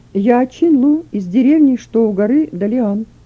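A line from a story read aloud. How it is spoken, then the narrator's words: Calm. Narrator (Russian): Он спокойно сказал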